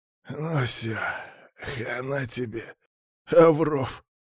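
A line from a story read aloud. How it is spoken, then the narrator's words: Tearful smiling hiss. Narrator (Russian): улыбнувшись сквозь слезы, прошипел Лысый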